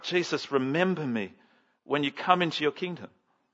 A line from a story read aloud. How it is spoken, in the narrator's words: he clumsily blurts out